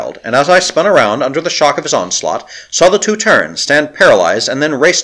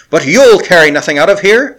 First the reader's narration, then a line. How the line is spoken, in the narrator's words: shrieked Marakanoff